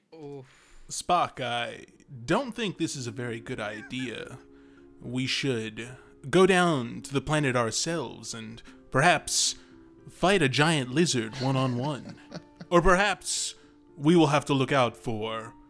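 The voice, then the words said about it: William Shatner's Captain Kirk impression. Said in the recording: “your best impression of William Shatner's Captain Kirk”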